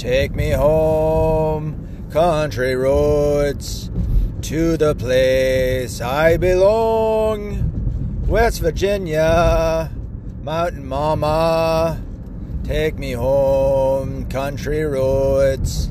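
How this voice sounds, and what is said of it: Singing in a put-on Scottish accent. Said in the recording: “Oddly enough, I need to do a Scottish accent in order to do so.”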